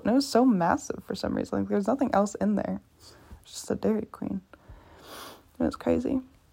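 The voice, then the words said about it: Strained, nearly lost voice. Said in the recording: “My voice is gone.”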